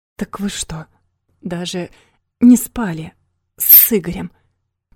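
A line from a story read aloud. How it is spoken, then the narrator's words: Hoarse wheeze. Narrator (Russian): просипел Рома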